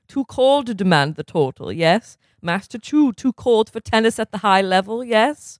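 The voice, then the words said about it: Put-on foreign accent. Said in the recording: “I don't know why I decided to do the accent again. Yeah, it feels right.”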